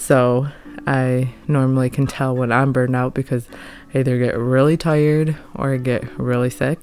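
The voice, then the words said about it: Sick-sounding voice. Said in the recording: “You probably can tell by my voice that I sound sick”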